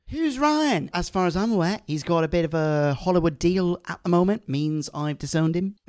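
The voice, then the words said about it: Poor attempt at a character's accent. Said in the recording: “I can't really do a Graham accent. I'm so sorry. ... I veered into Yaz territory, and then I was like, oh, fuck, I got a cross correct, and I failed miserably.”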